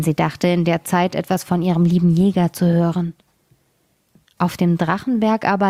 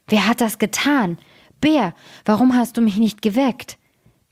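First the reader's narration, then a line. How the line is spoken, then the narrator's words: Terrible roaring lion. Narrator (German): fing er an, fürchterlich zu brüllen und rief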